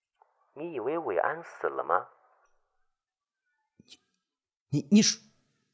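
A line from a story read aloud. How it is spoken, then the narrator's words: Eerie drawn-out voice. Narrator (Chinese): 张杰的声音再次悠悠的响起，如在地狱里冒出来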